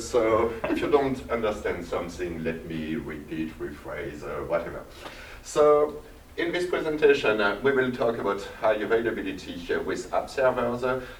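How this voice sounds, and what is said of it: Strong French accent. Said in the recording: “I have a strong French accent.”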